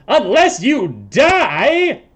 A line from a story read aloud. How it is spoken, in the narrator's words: Blorgzak shouts out